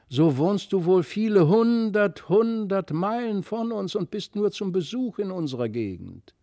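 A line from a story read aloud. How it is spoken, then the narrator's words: Tearful exclamation. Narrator (German): rief Christlieb weinerlich aus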